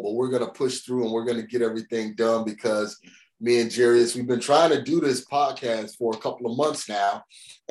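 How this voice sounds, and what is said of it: Slightly stuffy, congested voice. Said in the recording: “as you guys can hear, I have a little cold,”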